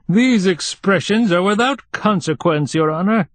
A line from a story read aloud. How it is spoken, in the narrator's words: said the starosta pompously